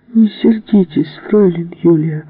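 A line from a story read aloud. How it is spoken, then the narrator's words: Whining. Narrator (Russian): захныкал принц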